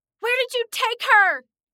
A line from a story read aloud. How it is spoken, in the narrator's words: Nora scream